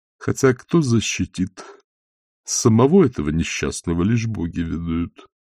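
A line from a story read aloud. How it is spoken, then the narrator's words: Muttered under breath. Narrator (Russian): пробормотал Сальцелло себе под нос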